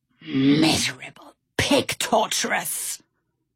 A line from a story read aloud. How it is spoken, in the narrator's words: Stout Sam growled